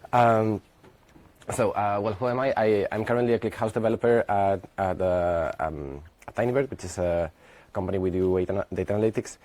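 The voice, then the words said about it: Strained, struggling voice. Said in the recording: “My voice is really getting a hard time.”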